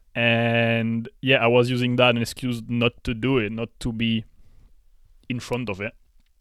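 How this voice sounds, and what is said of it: French accent. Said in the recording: “French accent”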